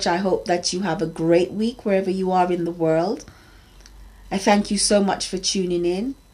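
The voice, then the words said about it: Slightly strained voice. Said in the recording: “my voice is still a little bit under pressure”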